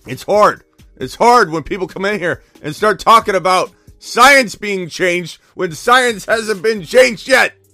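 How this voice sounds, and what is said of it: Hoarse, strained voice. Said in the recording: “I'm losing my voice ... I've lost my voice screaming and yelling.”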